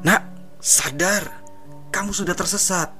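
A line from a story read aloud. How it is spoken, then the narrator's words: Hoarse voice. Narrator (Indonesian): katanya dengan suara parau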